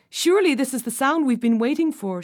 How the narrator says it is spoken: cried

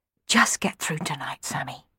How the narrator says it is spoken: he whispered

